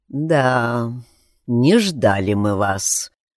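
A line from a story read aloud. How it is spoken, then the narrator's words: Flat expressionless drawl. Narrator (Russian): протянул очкарик без особого выражения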